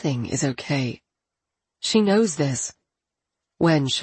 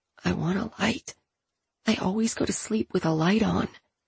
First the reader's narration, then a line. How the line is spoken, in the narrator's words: She whispers